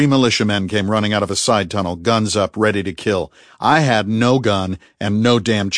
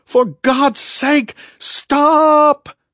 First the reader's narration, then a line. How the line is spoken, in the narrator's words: screaming